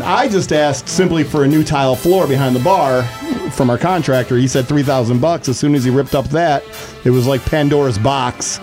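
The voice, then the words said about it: Buffalo accent. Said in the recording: “I miss your Buffalo accent.”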